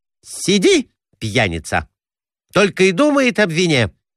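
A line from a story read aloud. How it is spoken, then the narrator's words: Wife snapping irritably. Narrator (Russian): огрызнулась супруга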